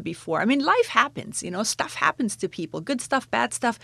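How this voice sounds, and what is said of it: German accent. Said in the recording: “In that lovely accent ... I'm originally from Germany ... is there a particular part of Germany where that accent comes from ... I'm from Bavaria”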